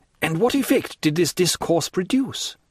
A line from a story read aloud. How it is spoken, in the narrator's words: anxiously inquired Albert